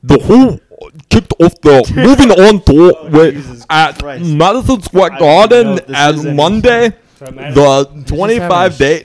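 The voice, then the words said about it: Put-on white South African accent. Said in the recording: “In a South African accent... White.”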